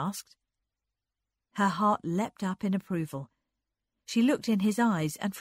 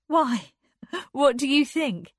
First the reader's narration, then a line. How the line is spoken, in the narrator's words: laughed